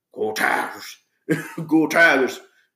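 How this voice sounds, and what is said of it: Imitated thick Cajun accent. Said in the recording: “he sounds like he's got that really thick Cajun accent”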